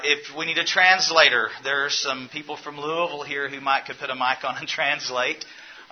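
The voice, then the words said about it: Southern American accent. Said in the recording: “I have a southern accent. ... I will try to tone down the I's and the my's”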